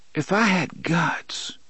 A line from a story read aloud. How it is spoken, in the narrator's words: she murmured